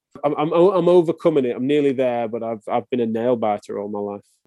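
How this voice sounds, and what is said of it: English accent. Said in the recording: “It's not a very English thing, is it? ... Chips are something that would match my accent”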